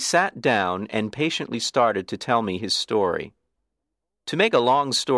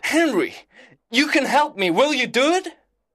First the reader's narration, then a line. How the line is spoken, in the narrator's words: he cried